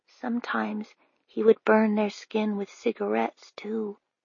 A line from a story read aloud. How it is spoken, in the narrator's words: Nell whispered